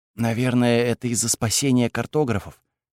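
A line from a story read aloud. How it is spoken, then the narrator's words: Whispered. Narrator (Russian): прошептала Кайла Сише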